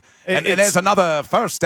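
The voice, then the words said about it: Attempted Australian accent, old-time announcer sound. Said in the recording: “That was a terrible Australian accent. ... That wasn't even Australian. That was the 1940s announcer for baseball.”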